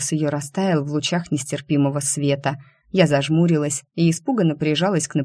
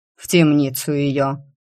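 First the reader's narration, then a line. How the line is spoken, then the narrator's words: Furious growl. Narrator (Russian): яростно рычала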